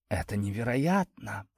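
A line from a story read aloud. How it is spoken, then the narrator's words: Breathless admiration. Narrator (Russian): восхищенно выдохнула Кара позади меня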